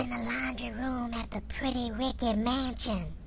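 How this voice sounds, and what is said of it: Whispering. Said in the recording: “why are you whispering? ... You're whispering.”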